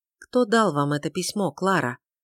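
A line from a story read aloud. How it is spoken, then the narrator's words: Outwardly calm question. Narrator (Russian): внешне спокойно спросила Тельма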